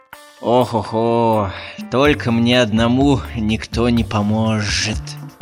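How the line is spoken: Grumbled. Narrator (Russian): Ворчал Жумбурка

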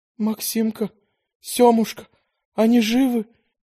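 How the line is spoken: Woman asking through breaking sobs. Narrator (Russian): с явно прорывающимися рыданиями спросила женщина

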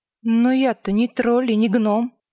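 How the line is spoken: Soft remark. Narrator (Russian): мягко заметила Ангва

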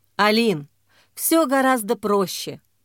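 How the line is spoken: Tired sigh. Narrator (Russian): устало вздохнул Андрей

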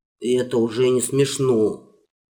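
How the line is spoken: Sullen mutter. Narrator (Russian): Угрюмо буркнул царевич

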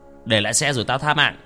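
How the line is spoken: Threatening shout. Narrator (Vietnamese): hắn quát

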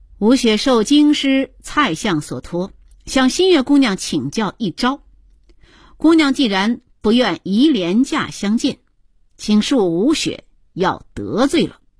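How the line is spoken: Slight smile. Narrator (Chinese): 南宫吴雪微微地笑了一下

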